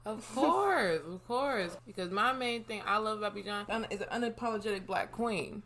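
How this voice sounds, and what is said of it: Slightly slurred speech. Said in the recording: “I'm slurring my words a little bit. I'm having wine.”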